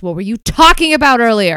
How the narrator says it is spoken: Penny ... she yells

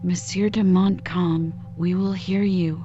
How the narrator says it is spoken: the veteran added, more calmly

